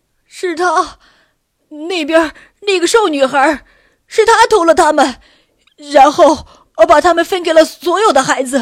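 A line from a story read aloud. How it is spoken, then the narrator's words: Crying out in pain. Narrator (Chinese): 当警卫拧着他的耳朵时，他趴在地上哭喊道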